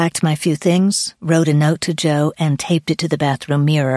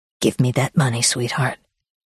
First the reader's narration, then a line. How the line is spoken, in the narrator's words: He held it almost politely to my chest and hissed